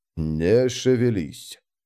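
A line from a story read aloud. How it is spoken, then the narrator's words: Whisper. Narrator (Russian): шепнул быстрый Бен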